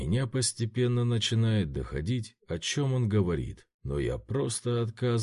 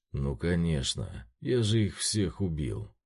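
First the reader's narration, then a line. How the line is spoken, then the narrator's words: Calm. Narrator (Russian): спокойно произносит Цянши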